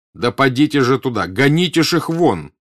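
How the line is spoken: Shouting. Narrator (Russian): крикнул старший офицер

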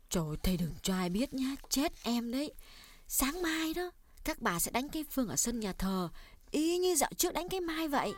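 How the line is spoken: Lowered whisper. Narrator (Vietnamese): cô hạ giọng nói nhỏ

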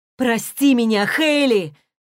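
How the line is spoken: Shout. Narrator (Russian): крикнул Крис

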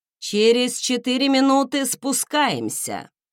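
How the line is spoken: Loud announcement. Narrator (Russian): громко объявил профессор

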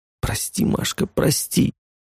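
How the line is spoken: Lifeless whisper. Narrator (Russian): прошептал я безжизненным голосом

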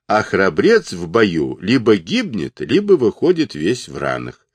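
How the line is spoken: Plain. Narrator (Russian): сказал Джубадзе

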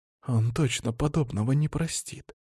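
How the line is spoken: Quiet whisper. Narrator (Russian): тихо прошептал Винсент

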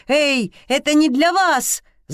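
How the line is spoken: Shout. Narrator (Russian): закричал он

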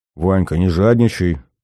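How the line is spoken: Muttered. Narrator (Russian): пробормотал последний

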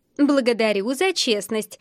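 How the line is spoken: Laughing. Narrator (Russian): рассмеялась Адель

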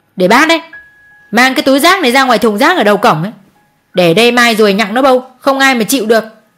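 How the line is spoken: Scolding shout. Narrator (Vietnamese): cô Hường quát

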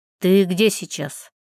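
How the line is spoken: Furious growl. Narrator (Russian): Никита буквально рычал от ярости

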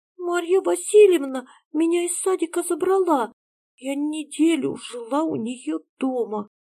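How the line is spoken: Small trembling voice. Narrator (Russian): сказала она дрожащим голоском

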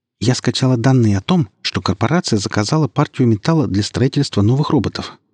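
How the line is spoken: Rapid chatter. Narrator (Russian): затараторила Таня

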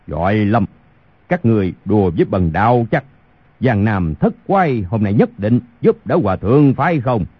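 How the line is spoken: Angry. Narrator (Vietnamese): Khu Sử Cơ tức giận nói

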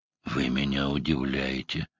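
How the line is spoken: Heavy sigh. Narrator (Russian): тяжело вздохнул

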